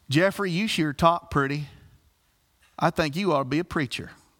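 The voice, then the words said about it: Impression of a Southern Illinois hillbilly woman. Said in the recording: “this hillbilly lady from Southern Illinois ... I'm going to do my best impression, so if I butcher it, forgive me.”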